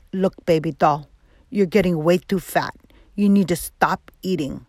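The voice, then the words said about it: Put-on Mexican Spanish accent. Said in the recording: “my dad has a Mexican, he's Mexican. He has a Spanish accent. So it's hard to understand his English. So I'm going to use my dad accent”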